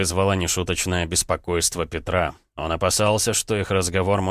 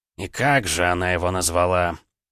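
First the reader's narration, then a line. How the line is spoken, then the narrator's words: Indifferent, hidden impatience. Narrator (Russian): За равнодушным тоном скрывалось тщательно упрятанное нетерпение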